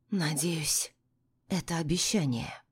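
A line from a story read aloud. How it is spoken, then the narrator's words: Whispering. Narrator (Russian): произношу шепотом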